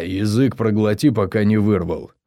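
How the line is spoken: Growl. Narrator (Russian): рыкнул Рос

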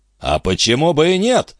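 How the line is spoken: Flushed angry shout. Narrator (Russian): закричал дядюшка, и его щеки побагровели

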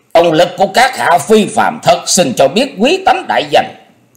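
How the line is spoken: Shrill laugh, question. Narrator (Vietnamese): Người nọ cười the thé rồi hỏi

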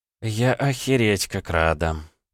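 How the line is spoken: Sad sigh. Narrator (Russian): печально вздохнула Кирана

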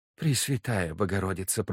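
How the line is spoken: Mother whispering. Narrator (Russian): прошептала типа мать

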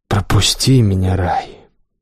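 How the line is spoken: Quiet command. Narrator (Russian): тихо приказал

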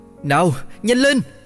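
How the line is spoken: Yelling. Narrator (Vietnamese): tôi gào

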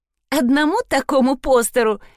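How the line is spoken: Giggling. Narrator (Russian): хихикнула Труда

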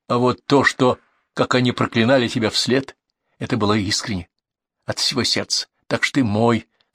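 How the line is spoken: Plain. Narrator (Russian): сказал черный человек

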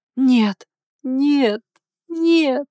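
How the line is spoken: Muffled sobbing cries. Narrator (Russian): Глухие рыдания сотрясали тело

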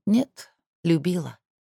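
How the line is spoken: Quiet, to herself. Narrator (Russian): тихо сама себе сказала Ляля Бимбикин

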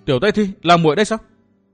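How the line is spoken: Startled cry. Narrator (Vietnamese): Thạch Kiếm Cửu sửng sốt cả người, bật kêu lên

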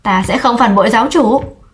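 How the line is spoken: Loud shout. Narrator (Vietnamese): hét lớn

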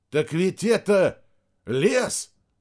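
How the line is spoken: Breathless exclamation. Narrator (Russian): выдохнул Рядошкин

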